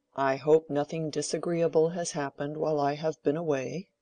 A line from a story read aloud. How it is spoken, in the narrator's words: he said kindly